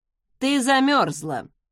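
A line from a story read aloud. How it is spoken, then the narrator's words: Dry remark. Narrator (Russian): сухо прокомментировал Закари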